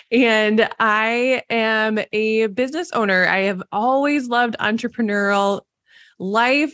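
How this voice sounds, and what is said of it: Mild Minnesotan accent. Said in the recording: “my Minnesotan accent ... I picked up a little bit on it”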